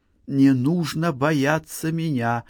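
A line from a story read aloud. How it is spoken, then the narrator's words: Whisper. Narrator (Russian): прошептала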